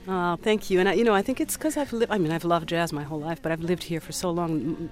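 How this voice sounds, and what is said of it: Noticeable foreign accent. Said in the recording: “I can't shake off the accent”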